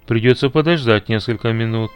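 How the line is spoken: Plain. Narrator (Russian): сказал мистер Галвей

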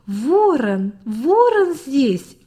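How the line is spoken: Children shouting joyfully. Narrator (Russian): закричали дети так весело

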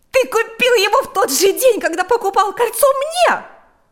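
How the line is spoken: Shout. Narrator (Russian): закричала Марьяна

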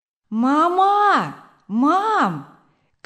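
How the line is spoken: Child shouting. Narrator (Russian): крикнул маленький Вилли Крамер

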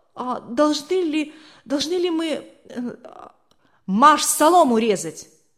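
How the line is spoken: Frozen, babbling. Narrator (Russian): Не в силах сдвинуться с места, он пролепетал

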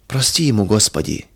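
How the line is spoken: Quiet dismayed whisper. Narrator (Russian): тихо шептала Федора, удивляясь грубости и черствости мужа

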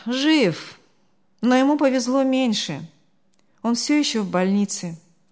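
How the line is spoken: Sighing. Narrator (Russian): вздохнул Артур

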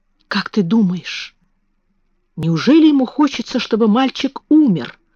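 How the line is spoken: Whisper. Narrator (Russian): прошептала Мэри

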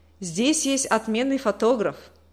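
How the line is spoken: Plain. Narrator (Russian): сказал Леня

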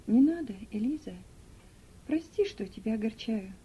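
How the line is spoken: Tender. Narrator (Russian): нежно сказал он

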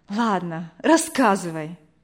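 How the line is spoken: Sighing. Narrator (Russian): вздохнула Вера

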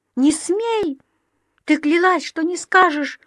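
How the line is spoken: Shouted out. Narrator (Russian): выкрикнула Дови

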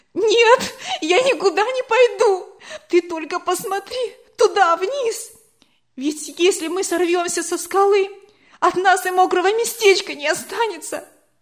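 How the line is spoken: Loud sobbing. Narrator (Russian): И она громко во весь голос зарыдала

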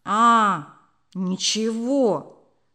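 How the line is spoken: Angry reply. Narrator (Russian): ответил Володя сердито

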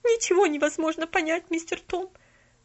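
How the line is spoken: Sobbing reply. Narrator (Russian): продолжая всхлипывать, ответила Нэнси

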